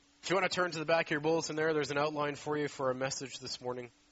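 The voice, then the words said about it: Congested, deeper-sounding voice. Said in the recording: “I've got a bit of a cold. ... that's why it might sound a little funny this morning. ... I should have been on the worship team singing the bass part today.”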